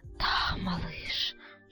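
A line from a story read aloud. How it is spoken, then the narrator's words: Heated whisper. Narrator (Russian): шептала разгоряченная мать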